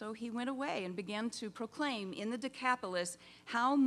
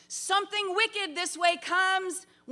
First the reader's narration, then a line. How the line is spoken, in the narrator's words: one of the swine herds shouted